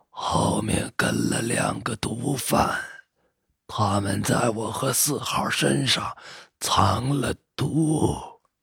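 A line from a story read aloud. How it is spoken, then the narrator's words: Hoarse rasping voice. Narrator (Chinese): 五号腐烂的嘴里发出沙哑的声音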